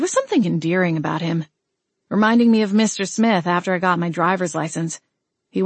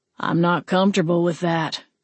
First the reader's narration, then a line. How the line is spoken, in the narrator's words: Alton grumbled